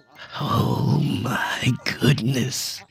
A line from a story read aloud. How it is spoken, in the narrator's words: whispered